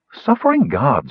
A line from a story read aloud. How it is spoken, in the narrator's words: she exclaimed